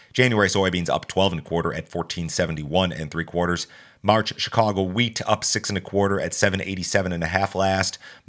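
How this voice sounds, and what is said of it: Congested voice from a cold. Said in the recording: “I know I sound terrible this morning, guys. I'm fighting a cold.”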